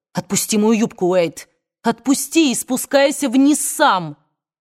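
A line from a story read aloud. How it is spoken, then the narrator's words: Angry shout. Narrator (Russian): она сердито крикнула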